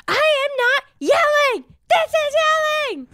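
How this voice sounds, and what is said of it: Loud obnoxious yelling impression of mother. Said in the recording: “But much louder and much more obnoxious.”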